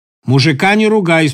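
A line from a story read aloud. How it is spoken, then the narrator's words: Grandmother, stern. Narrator (Russian): строго сказала бабушка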